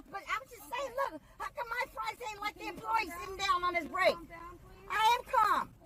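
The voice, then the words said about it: Irate, yelling woman. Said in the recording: “a woman irate over the freshness of her fries ... You're yelling at everyone.”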